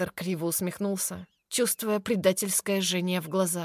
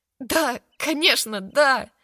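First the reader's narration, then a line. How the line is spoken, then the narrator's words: Relieved exhale. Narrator (Russian): Хантер выдохнул с облегчением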